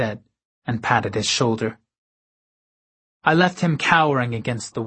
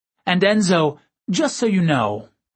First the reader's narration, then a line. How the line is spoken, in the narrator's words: I added cheerfully